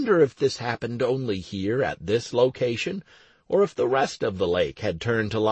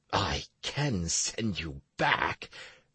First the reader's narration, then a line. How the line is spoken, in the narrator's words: the hermit muttered angrily